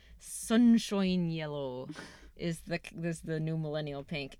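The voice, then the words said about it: Put-on Irish accent. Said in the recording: “You don't like my Irish accent? ... I mean, it's cute.”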